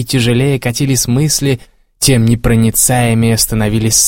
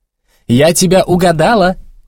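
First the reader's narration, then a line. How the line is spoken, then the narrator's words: Shouted. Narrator (Russian): крикнула она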